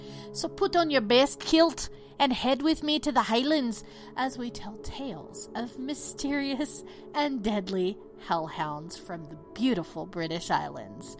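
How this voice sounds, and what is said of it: Bad put-on Scottish accent. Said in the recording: “I'm going to attempt to do a Scottish accent, and it should be pretty hilariously bad ... it was pretty bad”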